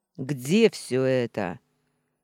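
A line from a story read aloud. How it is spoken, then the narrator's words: Impatient male growl. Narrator (Russian): Явно теряя терпение, прорычал мужчина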